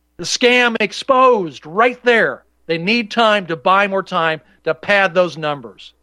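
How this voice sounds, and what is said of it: Angry, worked-up delivery. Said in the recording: “Do I sound a little angry? Do I sound a little worked up? Maybe just a smidgen.”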